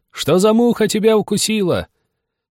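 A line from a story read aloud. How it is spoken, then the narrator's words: Several voices shouting. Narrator (Russian): Они закричали мне вслед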